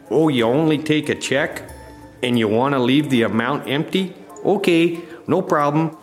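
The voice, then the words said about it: Put-on Upper Midwest accent. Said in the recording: “losing the accent... that goddamn accent... sounds like a real rube”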